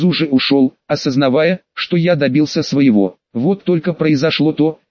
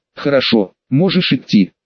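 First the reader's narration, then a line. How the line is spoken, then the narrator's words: Cold, habitual tone. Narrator (Russian): она просто мне сказала привычным ей холодным тоном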